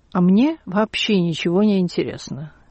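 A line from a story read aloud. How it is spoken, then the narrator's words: Calm, deeply unhappy. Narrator (Russian): поднял на нее глаза, несчастнее которых я не видела, и спокойно сказал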